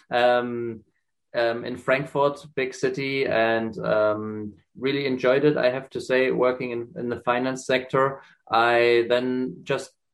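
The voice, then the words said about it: German accent. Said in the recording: “as you can hear from my accent, originally from Germany”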